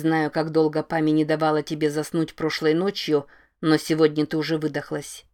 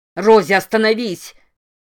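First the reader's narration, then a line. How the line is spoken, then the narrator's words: Yelling. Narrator (Russian): вопит Керт Гамильтон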